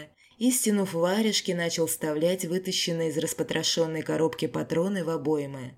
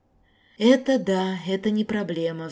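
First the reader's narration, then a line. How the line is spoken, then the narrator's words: Sighed. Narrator (Russian): вздохнул Напалм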